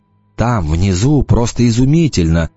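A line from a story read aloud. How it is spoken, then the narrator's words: Dreamy voice. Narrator (Russian): мечтательным голосом произнес он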